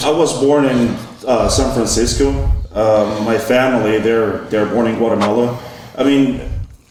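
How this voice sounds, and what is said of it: Speaks with a noticeable accent. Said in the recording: “This is why I have an accent too”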